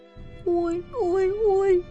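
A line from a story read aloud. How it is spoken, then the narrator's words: Moaning. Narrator (Russian): простонал Типпи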